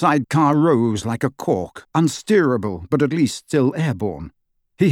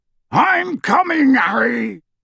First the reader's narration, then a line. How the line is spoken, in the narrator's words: Hagrid yelled out of the darkness